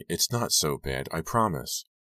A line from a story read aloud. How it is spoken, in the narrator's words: I said gently